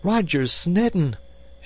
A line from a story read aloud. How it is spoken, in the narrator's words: She cried with a hysteria that would have dumbfounded her underlings